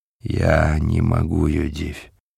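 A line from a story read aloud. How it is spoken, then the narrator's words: Sad reply. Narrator (Russian): грустно ответил он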